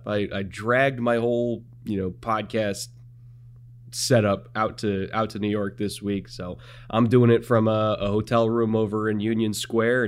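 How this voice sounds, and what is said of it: Hoarse, partly lost voice. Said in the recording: “you might be able to hear it in my voice. I lost a little bit of it last night”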